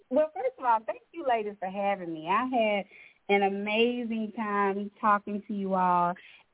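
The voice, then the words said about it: Southern country drawl. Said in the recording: “sorry that this little country drawl came out”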